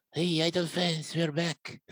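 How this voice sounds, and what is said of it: Sleazy man's put-on voice. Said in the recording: “let's do it in my Akipi voice. ... Why do I imagine Akipi with the sleazy guy's voice?”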